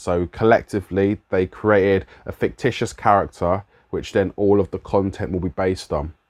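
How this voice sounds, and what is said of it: London accent. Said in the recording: “my London accent”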